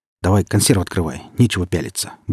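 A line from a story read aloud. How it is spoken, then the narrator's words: Gruff mutter. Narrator (Russian): буркнул сталкер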